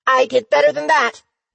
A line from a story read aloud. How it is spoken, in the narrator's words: Fizzy exclaimed